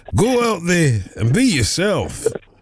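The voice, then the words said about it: Put-on Scottish accent. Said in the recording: “with a Scottish accent, ... It's a good accent as well, I thought.”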